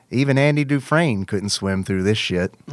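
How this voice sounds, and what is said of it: Bad Morgan Freeman impression. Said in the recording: “I have to try to say it in a special voice. ... which is a very bad Morgan Freeman ... Country Morgan Freeman.”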